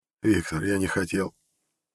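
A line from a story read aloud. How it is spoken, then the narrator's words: Muttered. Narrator (Russian): пробормотал он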